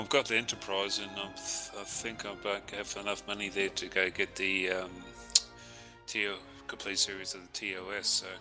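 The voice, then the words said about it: Noticeable regional accent. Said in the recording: “as you can tell by my accent”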